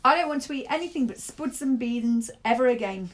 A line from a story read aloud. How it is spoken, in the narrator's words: Torrey yelled